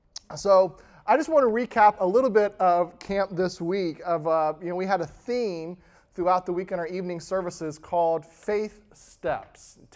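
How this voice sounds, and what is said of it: Slightly raspy, recovering voice. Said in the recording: “my voice is still recuperating from a week at camp. As you can hear, it's a little raspy”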